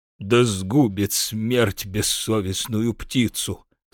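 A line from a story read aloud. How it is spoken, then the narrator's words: Muttering. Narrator (Russian): забормотал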